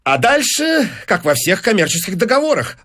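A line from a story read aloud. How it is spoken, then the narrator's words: Rapid chatter. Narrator (Russian): затараторил Файнс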